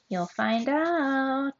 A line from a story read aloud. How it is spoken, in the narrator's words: Ondina said in a sing song voice